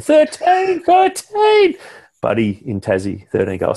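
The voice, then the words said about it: Impression of a sports commentator. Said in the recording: “that Anthony Hudson impression”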